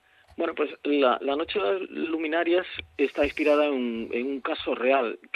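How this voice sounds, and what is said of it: Galician Spanish accent. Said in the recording (Spanish): “se te escapa un poco ese acento gallego ... sí, se me escapa mucho”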